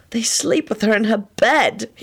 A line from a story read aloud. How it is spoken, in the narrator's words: he moaned in a desperate sort of voice